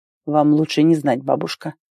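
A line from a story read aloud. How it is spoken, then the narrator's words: Muttered under breath. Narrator (Russian): буркнул себе под нос Рэм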